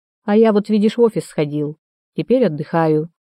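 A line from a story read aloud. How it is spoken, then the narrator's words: Father's firm voice. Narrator (Russian): твердым голосом сказал отец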